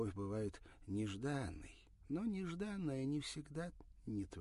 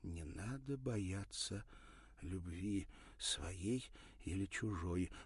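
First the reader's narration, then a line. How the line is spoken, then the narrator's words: Whisper. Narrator (Russian): прошептала Ирина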